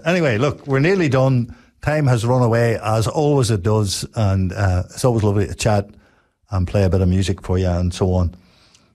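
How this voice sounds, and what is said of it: Congested voice from a cold. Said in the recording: “God, my tongue's all twisted up here. You can probably hear I've got a bit of a cold, and I'm just struggling to sort of keep from coughing”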